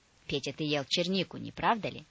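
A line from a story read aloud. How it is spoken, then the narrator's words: Stern grandmother. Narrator (Russian): спросила строго бабушка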